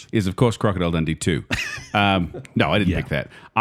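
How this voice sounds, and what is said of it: Put-on Australian accent. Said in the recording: “I don't know why I'm doing the accent again.”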